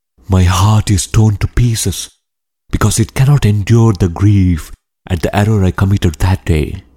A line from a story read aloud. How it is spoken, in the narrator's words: The Brahmin replied feebly